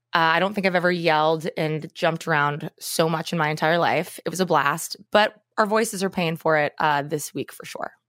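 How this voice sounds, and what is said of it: Raspy, hoarse voice. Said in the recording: “I'm a little raspy myself. So we did some karaoke screaming”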